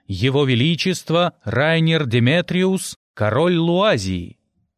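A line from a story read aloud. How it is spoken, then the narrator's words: Booming herald's announcement. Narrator (Russian): Герольд зычным голосом объявил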